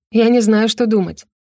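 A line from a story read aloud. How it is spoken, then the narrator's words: Irritated admission. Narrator (Russian): призналась Роза и раздраженно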